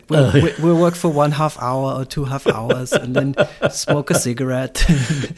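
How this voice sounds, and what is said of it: Generic European accent, sing-song upswing. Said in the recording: “he had this European character, and he had just had a general European accent ... that's like an Indo-German accent ... sort of Swedish swish or something ... the upswing as well”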